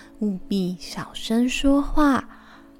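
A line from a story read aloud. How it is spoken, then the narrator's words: Soft whisper. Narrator (Chinese): 布奇……轻声细语的告诉小冬瓜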